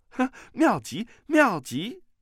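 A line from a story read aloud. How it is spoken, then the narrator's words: Clapping, laughing. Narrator (Chinese): 段誉拍手笑道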